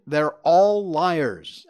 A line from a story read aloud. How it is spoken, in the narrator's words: Hussein screamed